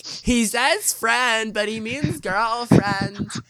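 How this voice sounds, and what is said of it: Imitating girls' voices. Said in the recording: “your girl impression”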